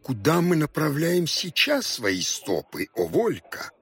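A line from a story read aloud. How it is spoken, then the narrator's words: Whiny old man's question. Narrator (Russian): плаксивым голосом спросил старик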